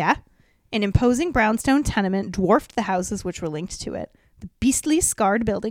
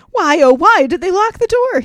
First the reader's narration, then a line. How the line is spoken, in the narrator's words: He wailed to himself in a martyr-like tone